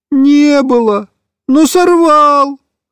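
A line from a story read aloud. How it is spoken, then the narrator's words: Whimpering. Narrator (Russian): хныкал Тоник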